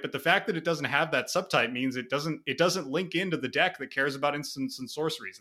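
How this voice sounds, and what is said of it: Frustrated, irritated tone. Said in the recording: “that's infuriating me, as you may be able to hear in my voice”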